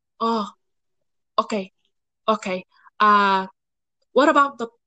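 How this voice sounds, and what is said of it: Exaggerated Filipino accent impression. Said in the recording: “This is a terrible Filipino accent.”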